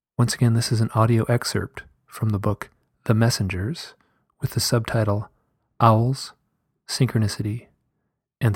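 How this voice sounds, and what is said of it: Deeper voice from a cold. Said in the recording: “I did have a little bit of a cold, so my voice is a little bit deeper than I'm used to ... my voice was a little bit deeper and a little bit more dramatic”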